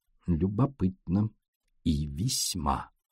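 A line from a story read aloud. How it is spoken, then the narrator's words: Mutter. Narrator (Russian): пробормотал Пуаро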